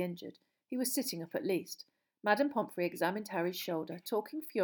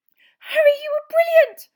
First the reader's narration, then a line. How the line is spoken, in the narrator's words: Hermione said squeakily